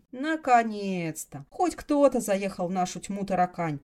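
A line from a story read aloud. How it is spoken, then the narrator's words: Muttering under breath. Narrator (Russian): пробурчала та себе под нос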